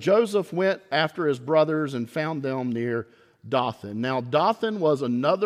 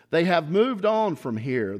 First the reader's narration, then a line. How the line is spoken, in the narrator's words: the man answered